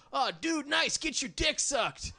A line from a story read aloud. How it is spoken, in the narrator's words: his buddy yelled to him